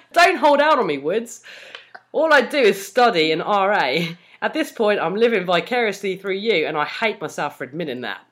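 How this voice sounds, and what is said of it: Dubious put-on Australian accent. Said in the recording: “Very uh, dubious Aussie accent ... I don't know why I went Australian.”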